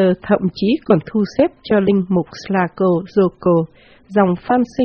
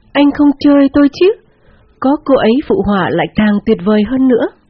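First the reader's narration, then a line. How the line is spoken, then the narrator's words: Ecstatic exclamation. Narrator (Vietnamese): anh ngây ngất và kêu lên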